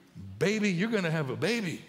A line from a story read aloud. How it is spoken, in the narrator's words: he blurted out like only a man could